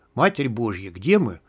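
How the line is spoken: Whispered. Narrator (Russian): прошептал смертник

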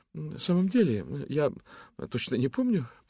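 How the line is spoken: Mumbling. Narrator (Russian): пробормотала она

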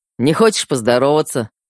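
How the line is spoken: Smirking grunt. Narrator (Russian): хмыкнул Феликс

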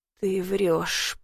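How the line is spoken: Through teeth, nauseous. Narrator (Russian): процедила я сквозь зубы, чувствуя, как горлу подкатывает тошнота

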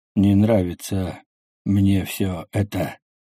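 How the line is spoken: Drawled. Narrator (Russian): протянул главный

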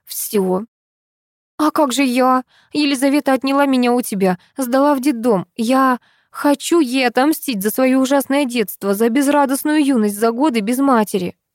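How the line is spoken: Long sigh. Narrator (Russian): Нина Анатольевна протяжно вздохнула

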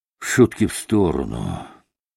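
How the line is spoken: Grim. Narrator (Russian): проговорил он мрачно

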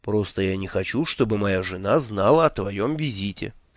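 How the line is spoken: Calm explanation. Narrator (Russian): спокойно объяснил

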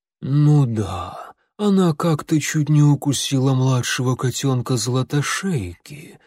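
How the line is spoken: Gloomy remark. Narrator (Russian): мрачно заметила Горностайка

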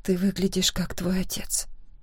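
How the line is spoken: Soft whisper. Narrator (Russian): тихо прошептала я

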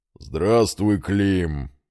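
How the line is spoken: Distinctive deep bass. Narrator (Russian): ответил своим неподражаемым басом

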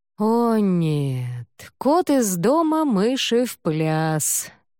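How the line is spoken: Groaning. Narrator (Russian): простонал

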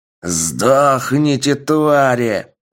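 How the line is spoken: Roar. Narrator (Russian): Взревел Макс

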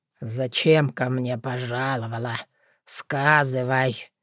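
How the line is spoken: Quiet, menacing question. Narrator (Russian): тихо и страшно вопросил Велимудр

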